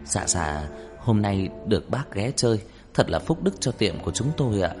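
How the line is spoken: Soft, fawning voice. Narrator (Vietnamese): Ông chủ như cúp đuôi, như chó con, nói giọng nhỏ nhẹ

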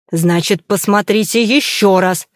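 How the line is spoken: Barked, losing control. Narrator (Russian): рявкнул, не в силах уже сдерживаться

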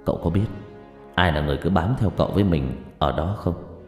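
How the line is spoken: Eerie voice. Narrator (Vietnamese): Long nói bằng giọng rờn rợn

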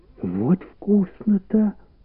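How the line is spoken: Whisper. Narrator (Russian): прошептала Валя

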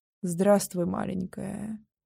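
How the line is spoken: Hollow, lifeless voice. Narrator (Russian): проговорил глухим, безжизненным голосом

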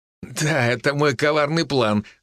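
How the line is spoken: Pleased laughing. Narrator (Russian): засмеялся Даня с довольным видом

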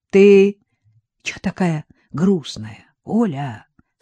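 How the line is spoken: Whispered question. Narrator (Russian): спросил шепотом Виктор

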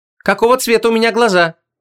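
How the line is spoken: Sharp question. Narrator (Russian): резко спросила Вон

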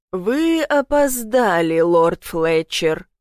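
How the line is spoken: Growled. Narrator (Russian): прорычал

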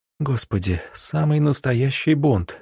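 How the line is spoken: Whisper. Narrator (Russian): шепнула Анна

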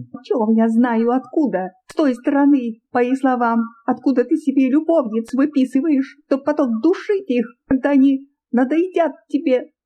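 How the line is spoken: Shouting louder and louder. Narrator (Russian): Она кричала все громче и громче

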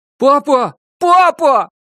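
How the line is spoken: Shout from behind door. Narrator (Russian): крикнули за дверью

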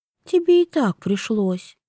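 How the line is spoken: Sighing. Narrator (Russian): вздохнула Вивьен

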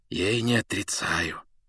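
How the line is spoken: Almost whispering. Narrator (Russian): почти шепотом сказал он

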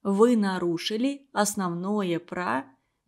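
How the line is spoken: Gentle. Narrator (Russian): мягко говорил

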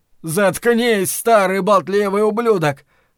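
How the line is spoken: Shouted. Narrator (Russian): прокричал Ллойд

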